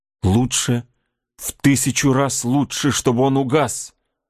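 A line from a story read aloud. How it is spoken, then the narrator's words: Horrified exclamation. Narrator (Russian): воскликнула с ужасом Кора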